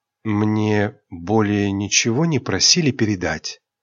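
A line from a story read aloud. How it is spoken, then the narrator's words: Quiet question. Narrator (Russian): Тихо спросила Айрин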